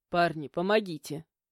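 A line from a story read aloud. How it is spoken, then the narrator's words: Irritated call. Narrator (Russian): позвал раздраженно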